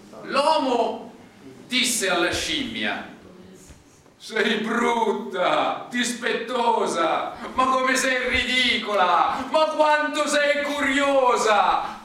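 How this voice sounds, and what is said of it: Faint Roman Italian accent. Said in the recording (Italian): “sentirete questo vago accento romano”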